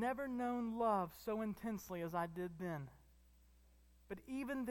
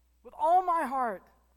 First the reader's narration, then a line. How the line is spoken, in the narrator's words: I cried